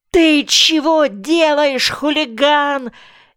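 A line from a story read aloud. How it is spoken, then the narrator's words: Furious shout. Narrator (Russian): яростно закричал новенький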